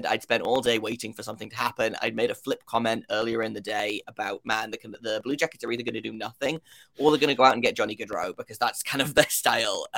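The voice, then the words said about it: British accent. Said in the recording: “if you can't tell by my accent, I am from the United Kingdom.”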